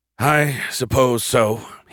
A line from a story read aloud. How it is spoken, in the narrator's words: he sighed